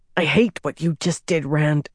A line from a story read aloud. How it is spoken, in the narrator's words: Nynaeve snarled